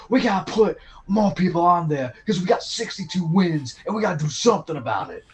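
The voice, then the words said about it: Put-on New York Queens accent. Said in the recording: “That's my Jackson Heights accent.”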